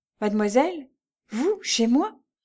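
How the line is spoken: Stammered. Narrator (French): balbutia-t-elle

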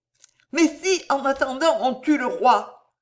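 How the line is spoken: Cried out. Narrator (French): s'écria la d'Escaumont

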